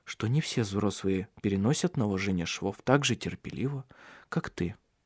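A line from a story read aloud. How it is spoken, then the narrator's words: Calmer voice. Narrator (Russian): уже более спокойно произнес он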